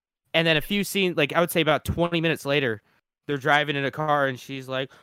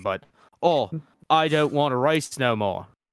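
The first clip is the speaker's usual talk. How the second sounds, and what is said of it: Bad put-on British accent. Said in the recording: “I apologize for my terrible British accent”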